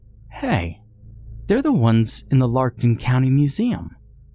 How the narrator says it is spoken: Sonia piped up

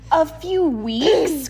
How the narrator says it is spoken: cried Grandpa

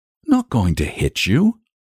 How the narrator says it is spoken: said the boy, wearily

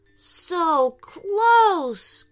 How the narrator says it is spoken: groaned Aiden

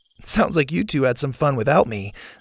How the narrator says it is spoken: Zeta said with a laugh

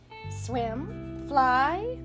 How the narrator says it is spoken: the hen cackled

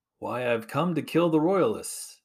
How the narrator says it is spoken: He calmly responded

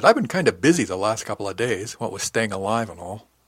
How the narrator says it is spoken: laughed at that and said

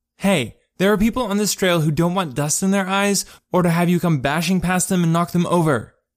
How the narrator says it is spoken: she shouted

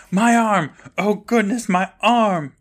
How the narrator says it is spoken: is screaming

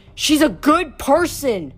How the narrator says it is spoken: He yelled across the street

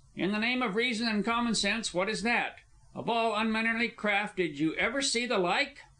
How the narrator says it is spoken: he exclaim

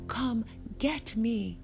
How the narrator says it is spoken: yelled

